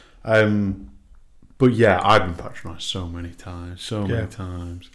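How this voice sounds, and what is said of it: Northern English accent. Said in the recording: “I've got my northern kind of accent. I don't, a bit of Manc, a bit of. Sometimes a bit of Scouse.”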